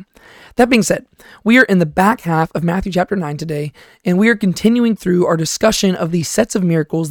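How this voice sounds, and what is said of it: Tired, hoarse voice. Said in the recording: “my voice sounds a little bit tired today ... my voice is a little bit hoarse right now, and it seems to be going out just a tad bit”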